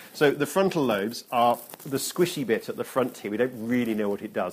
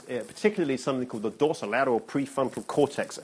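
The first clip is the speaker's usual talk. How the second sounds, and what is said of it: Put-on American accent. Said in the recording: “you have to say that with an American accent.”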